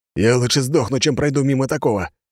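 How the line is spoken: Growling. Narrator (Russian): прорычал полицейский

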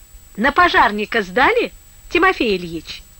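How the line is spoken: Mocking question. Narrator (Russian): спрашивает она насмешливо

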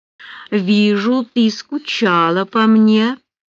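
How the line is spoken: Predatory purr. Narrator (Russian): промурлыкал он, как тигр, нежащийся на солнышке перед охотой

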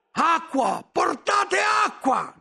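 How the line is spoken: Shouting. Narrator (Italian): gridavo

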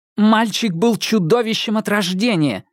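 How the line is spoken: Sharp reply. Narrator (Russian): резко ответила Ирен Адлер

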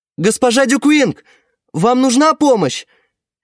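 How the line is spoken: Brave shout. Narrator (Russian): крикнул он, собрав все свое мужество

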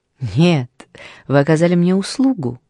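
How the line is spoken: Cheerful. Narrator (Russian): весело сказала она

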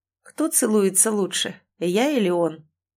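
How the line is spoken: Muffled, hollow. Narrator (Russian): глухо спросил Ричард

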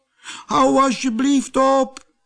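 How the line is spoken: Little man calling out. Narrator (Dutch): riep het mannetje

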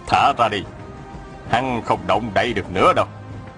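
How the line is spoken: Smiling. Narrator (Vietnamese): Ngọc Chân Tử mỉm cười bảo

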